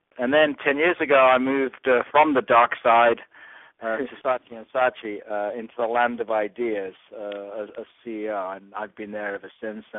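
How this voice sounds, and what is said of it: New Zealand accent. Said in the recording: “my home's in New Zealand... any problems on the accent”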